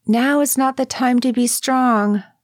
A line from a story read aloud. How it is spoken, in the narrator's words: I called out after him